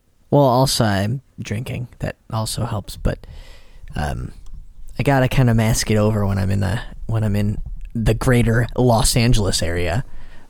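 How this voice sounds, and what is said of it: Chicago accent. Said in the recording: “accent's coming out. The Chicago accent.”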